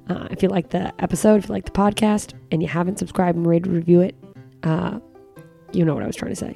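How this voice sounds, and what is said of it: Fast, quiet speech. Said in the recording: “I'm talking too fast ... I'm trying to be quiet”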